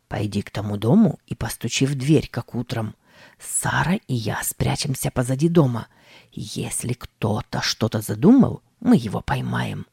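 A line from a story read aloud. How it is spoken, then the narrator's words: Whispered command. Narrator (Russian): Тим шепотом скомандовал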